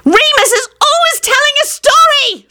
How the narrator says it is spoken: Solange shrieked

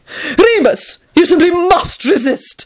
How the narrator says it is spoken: Tony exclaimed

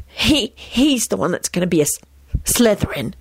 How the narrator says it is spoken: he whispered determinedly

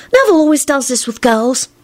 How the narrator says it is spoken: Ginny replied matter-of-factly and sighed

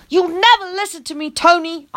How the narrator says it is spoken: I hollered

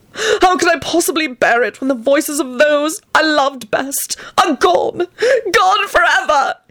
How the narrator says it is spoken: He sobbed violently

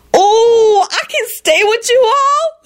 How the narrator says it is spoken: Lucretia shrieked ecstatically

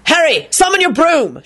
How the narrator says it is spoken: Lupin shouting

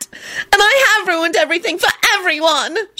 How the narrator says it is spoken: she screeched

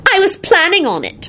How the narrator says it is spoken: she shrieked

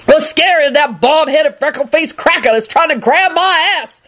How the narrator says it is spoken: Lucretia shouted

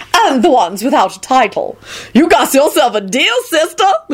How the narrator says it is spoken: Lucretia shouted back eagerly

